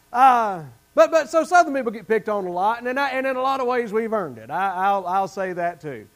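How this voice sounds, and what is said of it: Southern American accent. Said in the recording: “They don't talk like me in Montana ... you better believe he sounds a lot like me ... He's got a Southern accent.”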